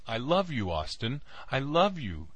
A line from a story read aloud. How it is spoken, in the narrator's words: she wailed